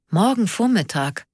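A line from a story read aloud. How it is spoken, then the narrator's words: Soft groan. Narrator (German): stöhnte leise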